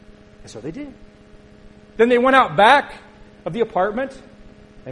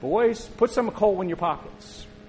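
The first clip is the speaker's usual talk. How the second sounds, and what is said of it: Weak attempt at Italian accent. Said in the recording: “he said it in a wonderful Italian accent that I've practiced and I cannot do.”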